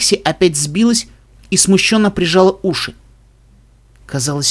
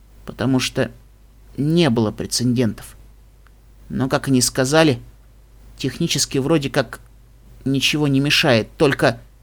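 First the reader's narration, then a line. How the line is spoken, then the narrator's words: Quiet speech. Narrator (Russian): тихо проговорила Пони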